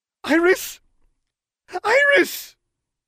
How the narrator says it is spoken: she cried out

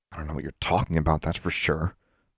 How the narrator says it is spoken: muttered as she left the room

